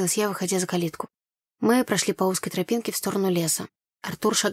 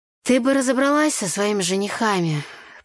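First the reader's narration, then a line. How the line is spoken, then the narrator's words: Grumbling. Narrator (Russian): проворчал соловей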